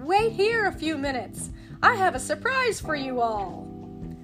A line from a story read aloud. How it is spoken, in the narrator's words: Scrooge shouted